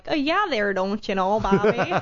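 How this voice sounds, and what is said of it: Exaggerated Wisconsin accent. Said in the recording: “I'm originally from Wisconsin ... Can you tell from the accent a little bit? ... It's starting to fade away, but anytime I talk to, like, my mom or anything back home, then I'm like”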